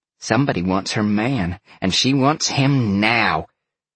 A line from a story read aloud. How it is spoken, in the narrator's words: Dalen all but growled back at him